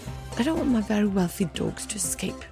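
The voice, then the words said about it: Put-on accent, slipping. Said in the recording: “The accent's really slipping here.”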